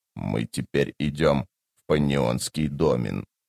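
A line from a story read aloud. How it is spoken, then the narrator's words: Dry impassive voice. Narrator (Russian): продолжил Тлен своим обычным, сухим и беспристрастным голосом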